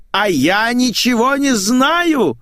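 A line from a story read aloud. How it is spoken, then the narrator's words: Yelling. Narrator (Russian): заорала Николетта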